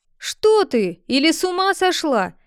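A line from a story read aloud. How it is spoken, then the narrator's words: King shouting at her. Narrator (Russian): закричал на нее король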